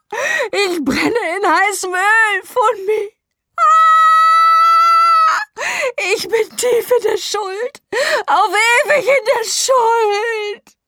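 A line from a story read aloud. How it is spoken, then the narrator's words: Screaming. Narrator (German): schrie Moomi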